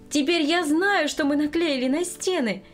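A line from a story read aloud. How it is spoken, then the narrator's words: Joyful greeting. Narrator (Russian): радостно встретила она внучку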